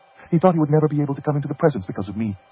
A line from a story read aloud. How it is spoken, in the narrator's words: she said quickly